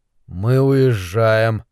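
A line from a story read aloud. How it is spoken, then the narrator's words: Muffled voice. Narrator (Russian): Глухо проговорил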